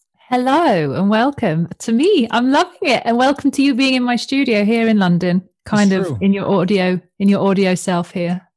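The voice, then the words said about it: Fancy accent. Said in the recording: “she's got a fancy accent to boot”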